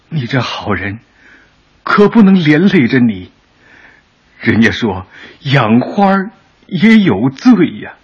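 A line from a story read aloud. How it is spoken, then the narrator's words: Old mother, tearful, choked. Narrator (Chinese): 老母亲声泪俱下，哽咽的说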